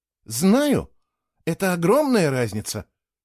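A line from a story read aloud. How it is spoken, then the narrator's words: Exclaiming. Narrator (Russian): воскликнула Кейла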